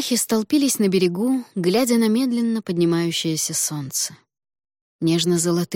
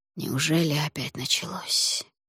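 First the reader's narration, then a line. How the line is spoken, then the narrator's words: Hoarse, quiet, drowned by waves. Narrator (Russian): хрипло проговорил он, но шепот волн заглушил тихие слова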